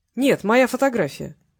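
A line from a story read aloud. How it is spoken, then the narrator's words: Mocking. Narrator (Russian): насмешливо произнес Васильев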